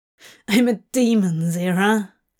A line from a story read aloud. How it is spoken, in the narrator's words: Crowley scoffed